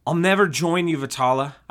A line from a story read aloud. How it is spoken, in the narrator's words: I yelled with a deep Jason-esque voice blast